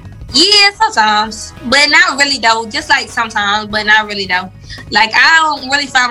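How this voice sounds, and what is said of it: Strong Southern US accent. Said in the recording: “Did she sound like honey and molasses on a biscuit? ... You have a strong accent.”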